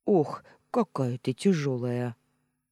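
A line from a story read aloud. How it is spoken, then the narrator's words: Grumbling. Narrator (Russian): проворчала я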